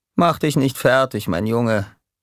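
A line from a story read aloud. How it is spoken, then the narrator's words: Calm. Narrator (German): sagte er ruhig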